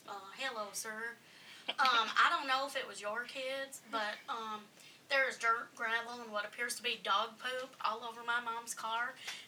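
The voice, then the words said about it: Quoted man with an accent. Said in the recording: “This guy had an accent, too.”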